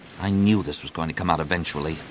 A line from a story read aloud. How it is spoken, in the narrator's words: Luke murmured